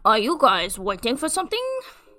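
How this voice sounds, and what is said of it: Put-on French accent. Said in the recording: “In like a little French accent. ... I'm very good at French.”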